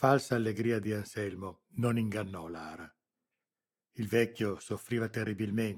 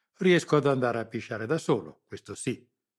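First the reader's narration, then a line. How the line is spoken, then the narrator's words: Curt reply, old man. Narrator (Italian): replicò seccamente il vecchio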